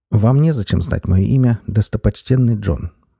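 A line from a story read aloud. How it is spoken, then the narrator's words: Dry reply. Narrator (Russian): сухо ответил сэр Перси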